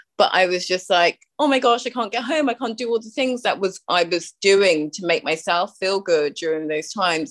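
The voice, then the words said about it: British accent. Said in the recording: “I'm from the UK, obviously, by my accent.”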